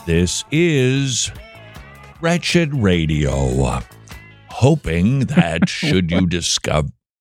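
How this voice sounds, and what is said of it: Speaking very slowly. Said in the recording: “Why are you talking so slow?”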